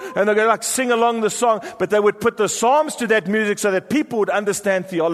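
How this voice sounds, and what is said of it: Usual voice. Nothing is said of it.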